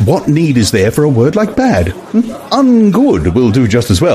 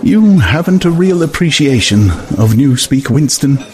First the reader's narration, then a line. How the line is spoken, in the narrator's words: he said almost sadly